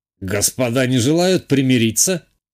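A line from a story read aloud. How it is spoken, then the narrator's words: Snide, mocking. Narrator (Russian): ехидно уточнил граф Найденов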